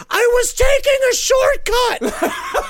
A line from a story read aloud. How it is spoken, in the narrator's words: He screamed